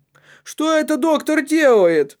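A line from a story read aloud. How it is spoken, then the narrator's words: Woman shouting. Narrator (Russian): закричала женщина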